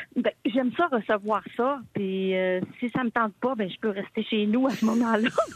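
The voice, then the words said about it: Saguenay-Lac-Saint-Jean Quebec French accent. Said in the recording (French): “est-ce que tu vas garder ton accent du Saguenay-Lac-Saint-Jean?”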